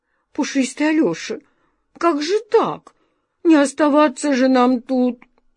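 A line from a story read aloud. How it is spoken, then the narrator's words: Moaning sob, cat. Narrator (Russian): Не то простонал, не то всхлипнул кот Васька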